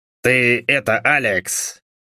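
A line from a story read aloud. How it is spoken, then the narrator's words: Indistinct mumble. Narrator (Russian): невнятно пробормотал Джо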